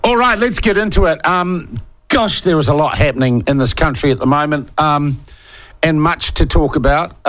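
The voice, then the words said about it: Sniffly voice with a cold. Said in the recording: “you get the odd sniffle today. I've got a cold. It's not a bad cold. ... Just a runny nose and a slightly sore throat”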